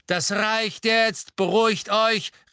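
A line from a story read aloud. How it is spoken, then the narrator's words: Calling out. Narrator (German): rief Mr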